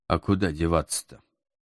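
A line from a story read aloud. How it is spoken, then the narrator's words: Sighing. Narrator (Russian): Вздохнул я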